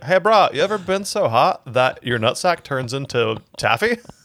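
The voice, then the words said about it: Slow put-on southern drawl. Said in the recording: “That's what a southern drawl is, dude. ... the southern drawl is the nut sack dragging the vocal cords downward.”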